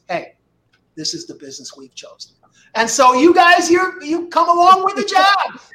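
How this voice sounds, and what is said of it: Hyman Roth impression. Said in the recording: “do a Hyman Roth impression”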